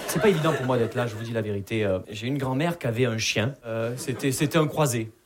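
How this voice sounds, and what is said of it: Southern French Perpignan accent. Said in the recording (French): “vous l'entendez à mon accent, je viens pas de Paris. Je viens de Perpignan.”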